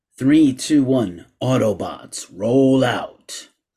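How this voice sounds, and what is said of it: Deep robot-hero character voice impression. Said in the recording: “my Optimus Prime impression”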